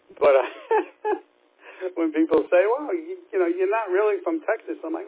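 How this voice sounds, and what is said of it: New York accent. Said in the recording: “There definitely is, obviously, with a New York accent ... I wouldn't want to lose my New York accent”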